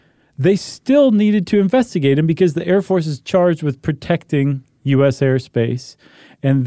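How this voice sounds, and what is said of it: Usual voice. Nothing is said of it.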